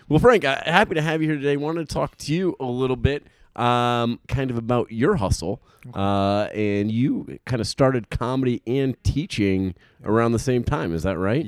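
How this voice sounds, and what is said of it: Put-on professional radio voice. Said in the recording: “you have a great radio voice, by the way ... awesome radio voice ... It's a put on ... This isn't my real voice”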